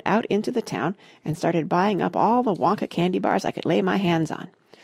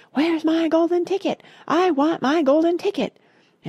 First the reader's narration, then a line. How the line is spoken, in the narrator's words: she would yelling in the most disturbing way